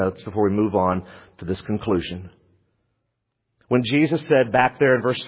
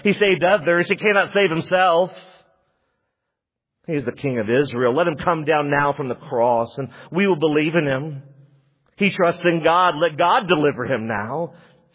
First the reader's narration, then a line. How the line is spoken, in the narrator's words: mocked him, saying